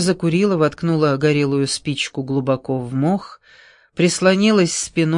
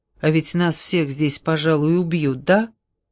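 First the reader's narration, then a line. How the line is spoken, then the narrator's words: Surprisingly calm voice. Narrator (Russian): Голос ее прозвучал на удивление спокойно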